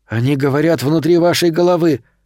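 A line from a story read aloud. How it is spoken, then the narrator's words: Sharp warning. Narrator (Russian): резко предупредил Томми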